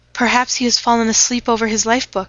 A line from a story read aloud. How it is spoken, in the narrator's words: she said anxiously